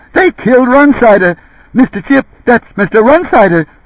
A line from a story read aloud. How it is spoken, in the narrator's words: In his excitement, stammered